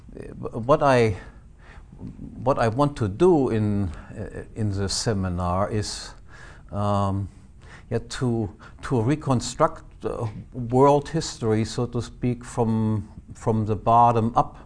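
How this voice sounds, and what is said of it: Northern German accent in English. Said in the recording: “My accent is quite different from Mises's. I come from Northern Germany”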